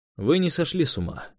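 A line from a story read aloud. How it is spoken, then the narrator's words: Quiet. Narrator (Russian): тихо сказал он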